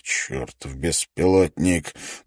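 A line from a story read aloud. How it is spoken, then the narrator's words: Muttering. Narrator (Russian): пробормотал профессор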